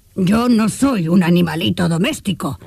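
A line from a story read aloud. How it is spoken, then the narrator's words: Growling retort. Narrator (Spanish): replicó el león, soltando otro gruñido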